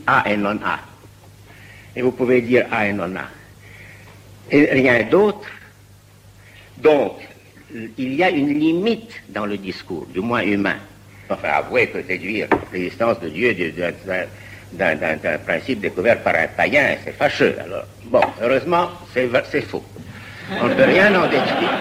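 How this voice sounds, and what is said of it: Russian accent speaking French. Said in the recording (French): “son accent, son phrasé ... Un Russe émigré en France, la voix”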